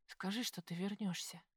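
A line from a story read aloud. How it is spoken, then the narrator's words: Mumbled. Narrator (Russian): пробормотала я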